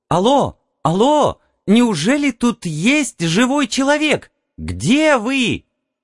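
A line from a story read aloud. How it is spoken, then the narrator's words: Joyful squeal. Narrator (Russian): Она радостно взвизгнула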